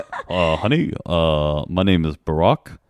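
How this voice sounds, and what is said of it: Barack Obama impression. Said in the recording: “doing an Obama impression ... I'm not good at impressions ... But they're pretty good.”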